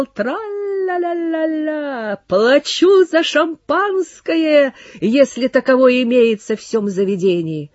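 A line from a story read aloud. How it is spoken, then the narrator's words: Shouting. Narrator (Russian): Луазо закричал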